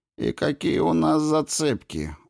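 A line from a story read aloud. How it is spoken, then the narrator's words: Gloomy question. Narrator (Russian): мрачно спросил Кин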